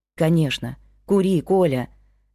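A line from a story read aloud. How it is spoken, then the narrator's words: Soft, gentle. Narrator (Russian): мягко произнесла Виктория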